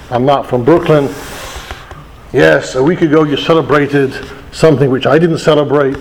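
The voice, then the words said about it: English accent, not American. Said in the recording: “my accent is not from the United States of America ... When I call England and speak to my family”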